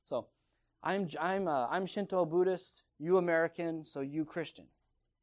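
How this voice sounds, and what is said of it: Imitated Japanese accent. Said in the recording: “This is my Japanese impersonation here.”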